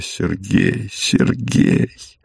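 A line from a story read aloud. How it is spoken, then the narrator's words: Whispering. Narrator (Russian): Она шепотом произнесла его имя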